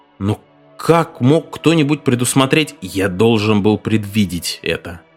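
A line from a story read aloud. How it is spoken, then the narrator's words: Angry grumble. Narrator (Russian): сердито проворчал Мартин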